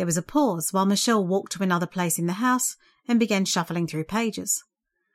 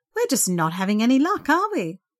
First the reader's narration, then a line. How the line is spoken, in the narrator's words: Michelle laughed kindly